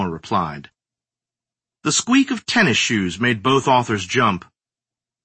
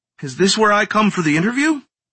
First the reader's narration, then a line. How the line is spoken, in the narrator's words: he asked in a breathless yet chipper voice